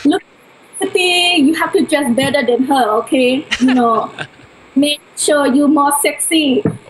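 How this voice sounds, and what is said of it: Imitates mother's accented voice. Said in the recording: “let me get my accent right”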